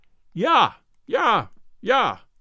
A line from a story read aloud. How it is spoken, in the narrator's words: that mage yelled